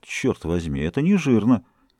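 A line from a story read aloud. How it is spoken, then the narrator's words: Muttering. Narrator (Russian): Форестье пробормотал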